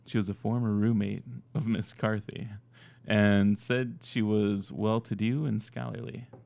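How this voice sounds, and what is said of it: Mock sexy dramatic reading voice. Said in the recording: “I'll do the whole thing in my quasi sexy voice ... Now he's doing like a dramatic reading”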